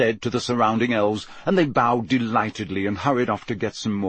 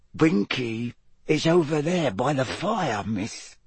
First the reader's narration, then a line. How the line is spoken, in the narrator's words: said Dobby quietly